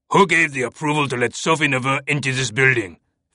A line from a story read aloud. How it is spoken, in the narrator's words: Fash bellowed